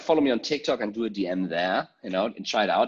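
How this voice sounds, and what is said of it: Energetic German accent. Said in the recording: “crazy, high energy, passionate, German accent”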